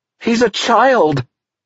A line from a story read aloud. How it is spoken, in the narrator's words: Teresa cried